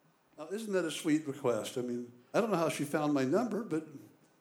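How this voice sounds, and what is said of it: Usual voice. Nothing is said of it.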